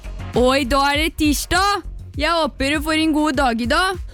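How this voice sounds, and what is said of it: Put-on Østfold Norwegian dialect. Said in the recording (Norwegian): “Føler meg som en ordentlig sånn Østfolding ... jeg prøvde å bli god på det. Men det en overraskende vanskelig dialekt ... Gi meg din beste”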